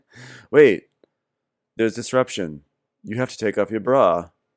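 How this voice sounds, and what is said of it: Imitating a softcore porn actor. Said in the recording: “my imitation of softcore porn”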